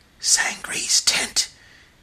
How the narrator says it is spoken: he exclaimed in a loud and startled whisper

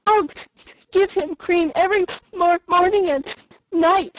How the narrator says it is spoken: sobbed Felicity

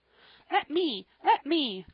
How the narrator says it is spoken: cried Joel, springing out of the old chair, so suddenly

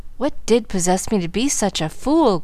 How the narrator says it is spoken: groaned Frank, repenting

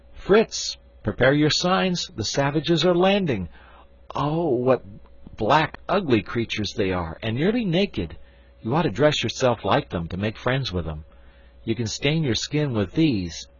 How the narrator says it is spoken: Jack, with his usual rashness, suddenly cried out

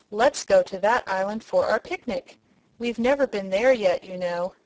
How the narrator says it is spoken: she exclaimed

